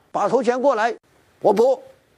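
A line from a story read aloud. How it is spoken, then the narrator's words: Shouting. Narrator (Chinese): 李逵叫道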